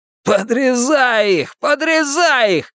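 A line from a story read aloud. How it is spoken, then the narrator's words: Spider shouting. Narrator (Russian): крикнул паук Гартон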